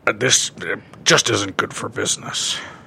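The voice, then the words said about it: Imitates another person's voice. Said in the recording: “my Vince McMahon impression”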